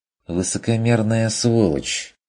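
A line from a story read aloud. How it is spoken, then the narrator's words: Mocking. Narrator (Russian): заметил Бруно насмешливо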